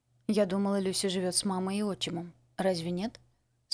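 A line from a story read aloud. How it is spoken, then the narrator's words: Plain question. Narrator (Russian): спросила миссис Бриджес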